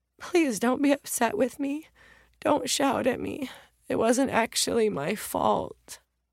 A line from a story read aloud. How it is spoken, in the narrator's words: In a voice shaken by sobs, the 7-year-old's mom said